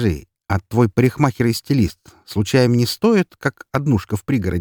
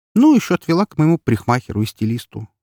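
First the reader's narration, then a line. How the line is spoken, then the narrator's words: Calm reply. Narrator (Russian): спокойно отозвалась Настя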